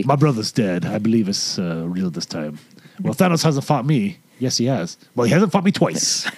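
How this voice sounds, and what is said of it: Character impression, pirate-like voice. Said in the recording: “do a really good Thor impression ... That's like a pirate”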